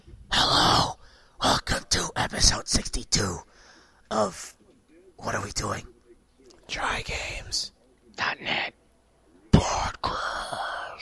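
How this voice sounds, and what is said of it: Whispering. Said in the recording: “Why are we whispering? ... let's stop whispering.”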